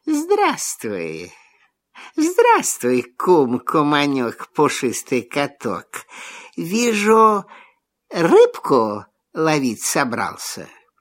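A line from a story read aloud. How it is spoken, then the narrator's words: Honeyed sweet voice. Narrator (Russian): лиса говорит медовым голоском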